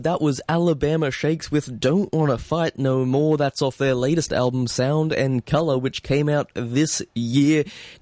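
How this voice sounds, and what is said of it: Australian accent. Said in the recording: “as you might be able to tell from my voice, I am indeed Australian”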